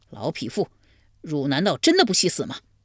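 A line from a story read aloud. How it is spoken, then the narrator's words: Furious. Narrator (Chinese): 怀公见之大怒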